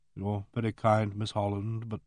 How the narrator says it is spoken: Symington said in a toneless voice

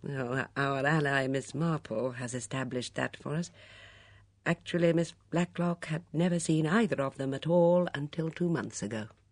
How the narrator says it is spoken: With a very faint chuckle, Ridesdale said

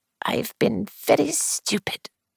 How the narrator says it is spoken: she murmured

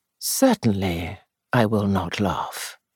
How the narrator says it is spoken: he said gently

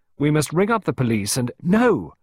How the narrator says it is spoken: Clarissa exclaimed sharply

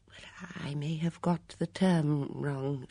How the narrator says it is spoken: she murmured

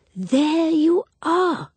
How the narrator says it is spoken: exclaimed Miss Marple

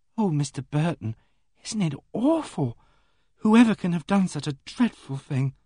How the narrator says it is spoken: Elsie Holland gasped out

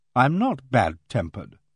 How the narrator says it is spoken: I said coldly

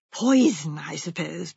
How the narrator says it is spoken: breathed Jane

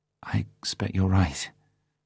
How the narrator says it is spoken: said nervously

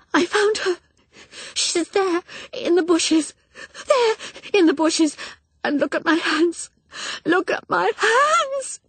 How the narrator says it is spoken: She said in sobbing breaths

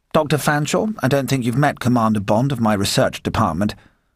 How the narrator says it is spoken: M said stiffly

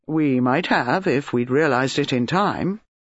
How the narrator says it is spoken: Mark said dryly

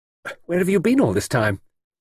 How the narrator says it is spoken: She said sharply

